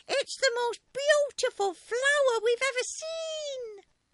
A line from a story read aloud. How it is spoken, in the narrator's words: they cried